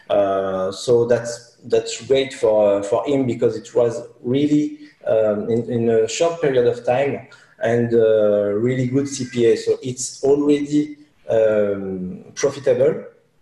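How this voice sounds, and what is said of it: French-accented English. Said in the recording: “your accent, right? Because you're a French.”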